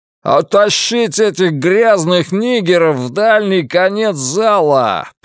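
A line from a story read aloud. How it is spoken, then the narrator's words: Roaring. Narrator (Russian): проревел Билл Арнольд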